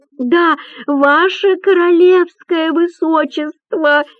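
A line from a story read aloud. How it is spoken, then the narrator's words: Yelling. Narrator (Russian): вопит Артур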